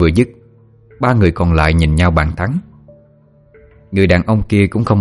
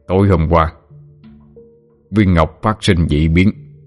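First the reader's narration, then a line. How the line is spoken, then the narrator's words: Grave voice. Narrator (Vietnamese): Người đàn ông nói với giọng nghiêm trọng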